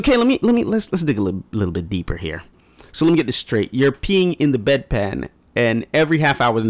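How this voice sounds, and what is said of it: Usual voice. Nothing is said of it.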